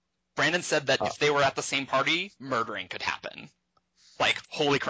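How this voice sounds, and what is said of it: Usual voice. Nothing is said of it.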